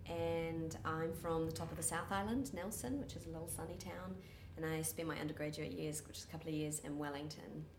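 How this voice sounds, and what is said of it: Soft New Zealand accent. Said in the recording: “It is a softer, ... Kiwi ... accent. ... Softer one.”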